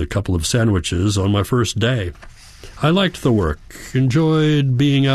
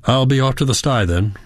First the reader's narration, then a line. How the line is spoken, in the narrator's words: said